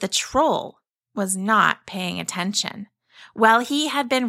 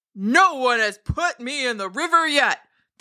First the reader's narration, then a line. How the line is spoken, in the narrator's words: the troll thundered